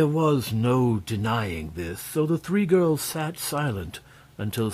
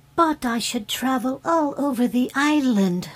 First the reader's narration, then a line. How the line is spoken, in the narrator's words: said the fairy brightly